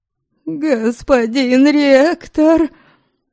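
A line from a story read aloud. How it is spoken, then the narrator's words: High girlish shriek. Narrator (Russian): Совсем по-девичьи тонко завизжал бедолага-студент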